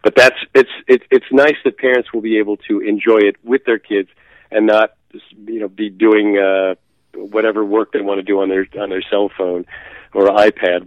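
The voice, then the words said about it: Slightly congested voice from cold. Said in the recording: “I have a little bit of a cold.”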